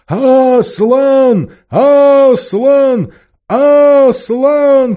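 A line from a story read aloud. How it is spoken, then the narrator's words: Crowd of animals shouting. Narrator (Russian): кричали звери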